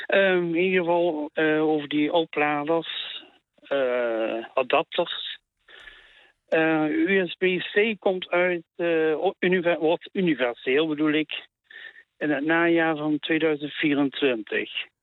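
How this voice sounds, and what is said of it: Maastricht (Limburg) Dutch accent. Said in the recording (Dutch): “Ik heb een accent, ik kom in Maastricht.”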